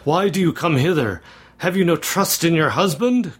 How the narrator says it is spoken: cried he impetuously

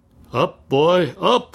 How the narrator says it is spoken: cried the lime-burner

